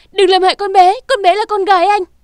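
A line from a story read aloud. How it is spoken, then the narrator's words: Desperate scream. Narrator (Vietnamese): trong lúc khẩn cấp Nam Cung Vũ Nhi gào to lên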